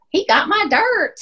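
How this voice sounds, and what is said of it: Imitated thick country accent. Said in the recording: “they're in this thick country accent.”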